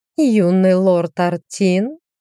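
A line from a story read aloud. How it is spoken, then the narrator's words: Singsong. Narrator (Russian): нараспев произнесла она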